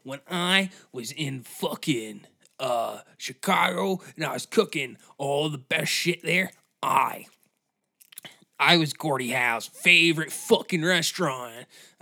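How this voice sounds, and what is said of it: Put-on accent, strained throat. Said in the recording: “I don't know what's going on with this accent, but my throat hurts.”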